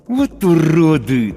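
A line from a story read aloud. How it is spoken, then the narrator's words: Hissed through teeth. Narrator (Russian): цежу сквозь зубы я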